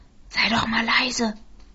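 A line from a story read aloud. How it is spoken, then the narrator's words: Whisper. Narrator (German): flüsterte Markus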